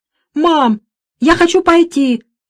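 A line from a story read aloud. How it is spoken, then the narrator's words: Shout breaking into sobs. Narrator (Russian): крикнула и разрыдалась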